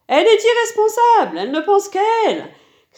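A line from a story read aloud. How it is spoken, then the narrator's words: Shrill shouting. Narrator (French): criait la voix aiguë d'Héra au bras blanc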